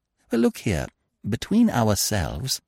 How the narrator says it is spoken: said Freddy earnestly

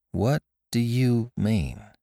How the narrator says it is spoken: She asked slowly

